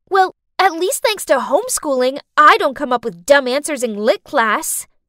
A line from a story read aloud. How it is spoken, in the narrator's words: I snapped back